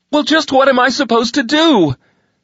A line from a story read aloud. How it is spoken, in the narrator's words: She shouted angrily